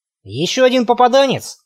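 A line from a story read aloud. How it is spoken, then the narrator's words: Snorting. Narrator (Russian): хмыкнул Макс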